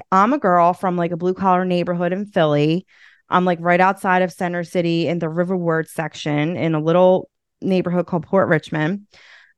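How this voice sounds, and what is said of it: Philadelphia accent. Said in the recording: “who's going to take this accent seriously? ... your accent is what makes you unique ... growing up in the city, especially in Philly”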